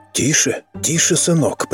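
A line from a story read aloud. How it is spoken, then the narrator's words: Deliberately quiet whisper. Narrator (Russian): прервал его Дэвидсон нарочито тихим шепотом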